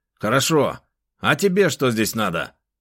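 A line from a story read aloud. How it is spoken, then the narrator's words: Rude question. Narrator (Russian): грубо спросил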